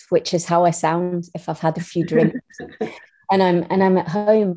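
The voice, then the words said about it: Stronger Scottish accent. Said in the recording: “I can get a bit more of a Scottish voice like this”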